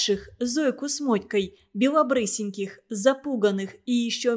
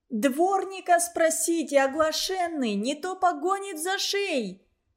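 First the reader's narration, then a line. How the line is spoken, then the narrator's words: Flustered joyful shout. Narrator (Russian): крикнула вслед Вирка, все еще не совладевшая с внезапной радостной растерянностью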